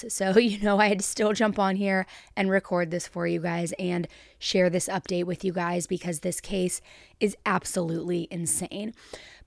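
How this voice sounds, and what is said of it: Sick voice with heavy vocal fry. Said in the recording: “my normal annoying vocal fry is even worse because I am sick”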